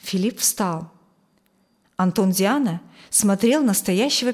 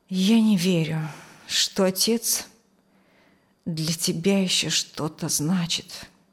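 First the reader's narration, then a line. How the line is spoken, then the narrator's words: Tired voice. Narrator (Russian): устало сказал он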